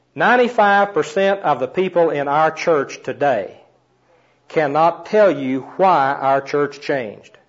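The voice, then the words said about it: Strong accent, hard to understand. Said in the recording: “My accent gets in the way”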